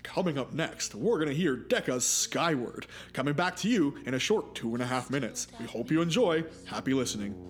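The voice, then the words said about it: Radio announcer voice. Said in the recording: “do your best radio voice”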